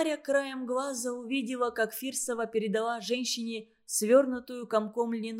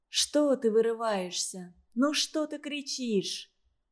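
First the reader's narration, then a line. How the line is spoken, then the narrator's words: Soft soothing murmur. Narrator (Russian): тихонько приговаривала Варвара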